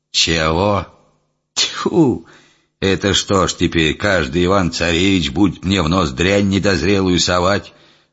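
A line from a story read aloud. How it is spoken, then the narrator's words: Old man grumbling. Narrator (Russian): Заворчал старик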